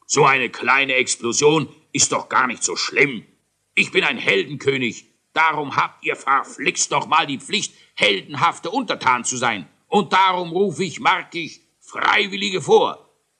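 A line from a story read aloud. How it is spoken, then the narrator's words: King calling out. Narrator (German): Der König rief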